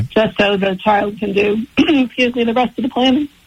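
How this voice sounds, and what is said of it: Emotional, choked-up voice. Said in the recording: “getting emotional. I can hear it in your voice.”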